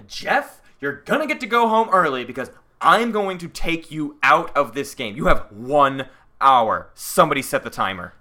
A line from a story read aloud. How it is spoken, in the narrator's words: Jeff pissed off Brian, and Brian actually stood up on the bench, arms wide, and shouted